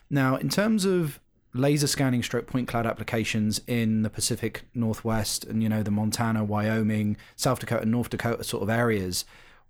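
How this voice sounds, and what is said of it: British accent. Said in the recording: “having come from the UK, which, you know, obviously by the accent I clearly am”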